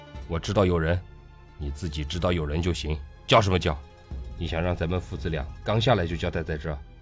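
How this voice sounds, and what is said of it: Quiet hushed scolding. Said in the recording (Chinese): “父亲小声的呵斥我道”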